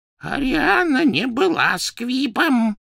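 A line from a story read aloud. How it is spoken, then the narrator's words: Hoarse rasp. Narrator (Russian): прохрипел Дош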